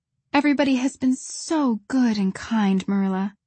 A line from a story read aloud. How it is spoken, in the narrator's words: sighed Anne happily